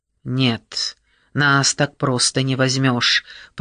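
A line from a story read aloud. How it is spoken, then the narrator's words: Hissing into ear. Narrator (Russian): прошипел он ей в ухо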